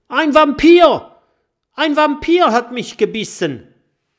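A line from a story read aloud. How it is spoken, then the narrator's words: Excited creature screaming. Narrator (German): schreit ein aufgeregter Stacheldrache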